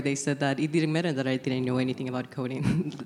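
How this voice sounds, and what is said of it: Venezuelan Spanish accent. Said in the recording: “I had just come from Venezuela like maybe 6 months ago. That's where my accent comes from”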